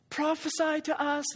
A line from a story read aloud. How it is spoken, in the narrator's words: they jeered